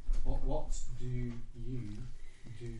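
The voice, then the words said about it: Slow, deliberate speech. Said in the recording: “Should I say it slower?”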